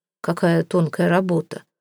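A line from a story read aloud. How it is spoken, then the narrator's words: Muttered. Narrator (Russian): пробормотал он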